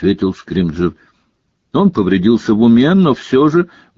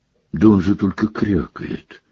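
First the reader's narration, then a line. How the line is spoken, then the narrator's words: Weak objecting voice. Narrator (Russian): слабым голосом возразил премьер-министр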